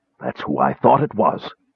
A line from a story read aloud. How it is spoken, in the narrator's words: Caramon whispered, nodding to himself solemnly